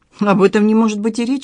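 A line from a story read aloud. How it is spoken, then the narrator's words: Exclaiming. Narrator (Russian): воскликнула Галина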